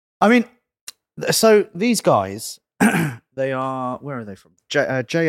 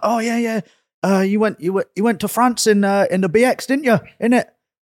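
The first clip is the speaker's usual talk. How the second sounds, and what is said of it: Imitated Bradford accent. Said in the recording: “what was that accent? ... It's like Bradford, bro. ... I don't know how to do a Bradford accent”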